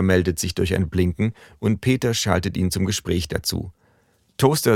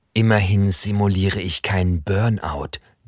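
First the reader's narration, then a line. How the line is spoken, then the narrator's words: Hissing stove. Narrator (German): zischt der Herd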